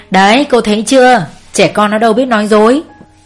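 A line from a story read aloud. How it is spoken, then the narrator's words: Laughing loudly. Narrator (Vietnamese): Ông Tuấn cười to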